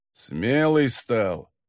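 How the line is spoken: Disapproving grumble. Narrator (Russian): неодобрительно пробурчал Магардон

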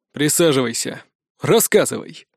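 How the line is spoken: Deep bass voice. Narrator (Russian): пробасил Беннет

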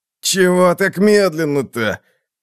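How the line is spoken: Groaning. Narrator (Russian): Простонал Халлас

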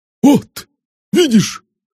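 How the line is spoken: Exclaimed. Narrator (Russian): воскликнул Стива

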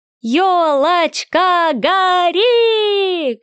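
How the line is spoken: Children shouting. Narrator (Russian): кричали дети

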